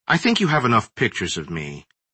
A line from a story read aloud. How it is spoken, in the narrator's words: Moore said coldly